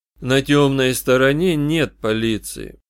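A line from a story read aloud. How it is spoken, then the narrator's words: Calm. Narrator (Russian): спокойно объяснил я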